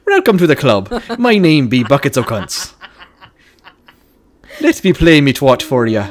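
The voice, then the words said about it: Put-on Irish accent. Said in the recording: “Like an Irish stripper ... God, you're so good at accents”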